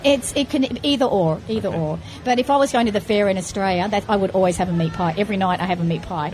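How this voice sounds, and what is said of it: Australian accent. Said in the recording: “So I'm a real Aussie. ... Love your accent.”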